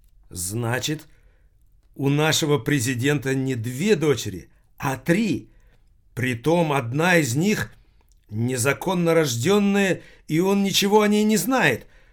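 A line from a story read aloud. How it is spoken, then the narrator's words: Exclaimed. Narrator (Russian): воскликнула Анна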